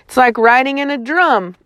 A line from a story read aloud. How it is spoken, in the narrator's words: I shouted